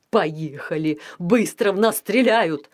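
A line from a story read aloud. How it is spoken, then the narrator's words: Shrieking. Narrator (Russian): взвизгнул он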